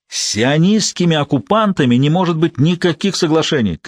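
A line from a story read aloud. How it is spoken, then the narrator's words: Shouting, voice cracking falsetto. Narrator (Russian): кричал срывающимся на фальцет голосом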